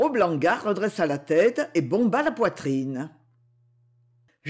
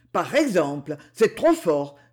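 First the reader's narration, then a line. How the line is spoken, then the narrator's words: Exclaimed. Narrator (French): s'exclama Blangard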